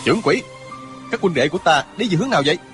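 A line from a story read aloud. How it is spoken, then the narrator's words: Loud angry shout. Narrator (Vietnamese): Chàng quát to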